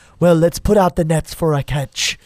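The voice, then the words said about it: Put-on Irish accent. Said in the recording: “I don't know where that Irish accent came.”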